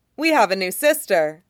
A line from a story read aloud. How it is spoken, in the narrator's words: Thalia says brightly